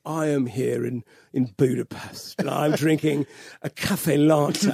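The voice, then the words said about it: Hungarian voice faking British accent. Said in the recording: “demented Hungarian with a fake British accent”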